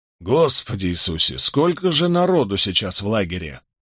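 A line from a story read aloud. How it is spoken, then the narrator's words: Plain. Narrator (Russian): спросил Барак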